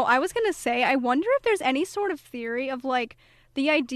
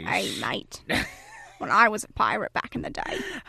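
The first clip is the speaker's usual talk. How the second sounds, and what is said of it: Bad put-on pirate accent. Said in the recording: “a cute little pirate accent ... our bad terrible accents”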